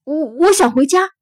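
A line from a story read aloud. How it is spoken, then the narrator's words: Slightly louder repeat. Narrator (Chinese): 稍微大声了一点，又说了一遍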